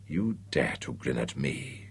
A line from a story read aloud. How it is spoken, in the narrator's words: she hissed